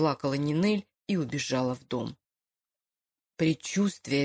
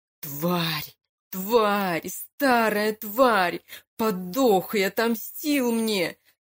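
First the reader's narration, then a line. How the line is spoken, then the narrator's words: Sobbing shout. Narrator (Russian): Сквозь слезы выкрикнул Лука … рыдая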